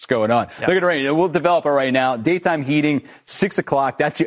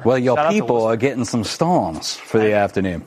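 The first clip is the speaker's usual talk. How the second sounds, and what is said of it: Attempted Ohio accent, Charleston flair. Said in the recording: “That's not the Ohio accent, but it's the best I can do... It's pretty good. It's a little, little Charleston flair in there.”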